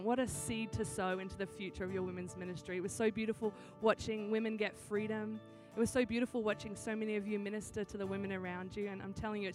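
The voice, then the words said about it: Australian accent. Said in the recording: “I am Australian. That's why I sound funny. Every time someone's like, do you have a cold? Are you sick? No, this is just what an Australian accent sounds like.”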